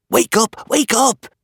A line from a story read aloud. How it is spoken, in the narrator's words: whispered